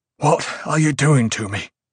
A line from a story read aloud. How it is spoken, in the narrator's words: Haight gasped